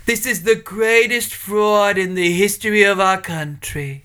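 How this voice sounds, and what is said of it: Imitates another person's voice. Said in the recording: “Trump impersonations”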